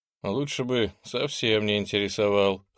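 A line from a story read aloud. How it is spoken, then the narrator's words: Wry snort. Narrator (Russian): хмыкнул благородный Ант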